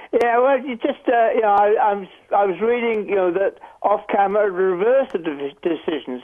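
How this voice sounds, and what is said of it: Speaks with a noticeable accent. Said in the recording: “My accent gives some trouble.”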